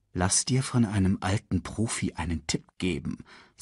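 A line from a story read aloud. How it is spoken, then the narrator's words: Quiet. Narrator (German): sagte Mufasa leise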